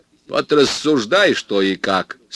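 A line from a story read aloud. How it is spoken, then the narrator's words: Stern. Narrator (Russian): строго ответил Родионов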